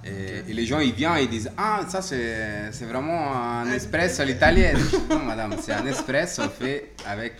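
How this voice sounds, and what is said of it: Slight foreign accent in French. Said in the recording (French): “ils entendent mon accent ... un petit accent”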